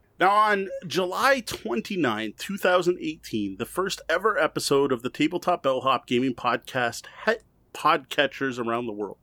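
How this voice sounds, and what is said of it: Rough, sick-sounding voice. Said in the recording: “I am still not feeling 100%... illness related noises... my voice is a little rough”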